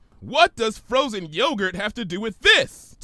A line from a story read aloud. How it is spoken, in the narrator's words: Twilight shouted